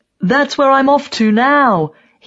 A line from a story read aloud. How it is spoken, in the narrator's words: he yells